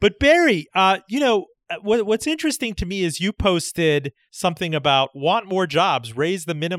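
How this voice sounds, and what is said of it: Usual voice. Nothing is said of it.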